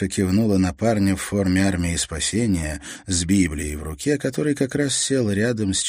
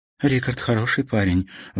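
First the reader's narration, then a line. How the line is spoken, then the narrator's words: Sighing. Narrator (Russian): вздохнула Мартина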